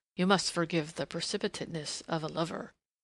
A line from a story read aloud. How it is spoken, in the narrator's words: he murmured